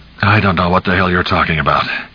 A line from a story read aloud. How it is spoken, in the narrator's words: Cap said flatly